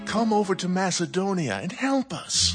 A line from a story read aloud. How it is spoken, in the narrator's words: A man of Macedonia pleaded with him